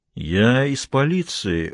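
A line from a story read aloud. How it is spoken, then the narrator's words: Drawling, sexy announcement. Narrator (Russian): растягивая слова, объявил Бобби самым сексуальным голосом, на какой только был способен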